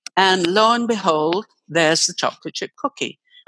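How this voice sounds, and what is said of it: Usual voice. Nothing is said of it.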